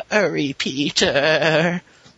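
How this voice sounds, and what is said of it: Bad old woman voice impression. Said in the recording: “That is a very bad impression of an old woman.”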